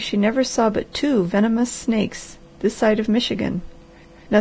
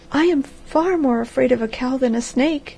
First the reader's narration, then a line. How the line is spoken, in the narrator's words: she cried